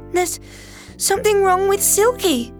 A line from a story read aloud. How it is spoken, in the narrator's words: cried Maddie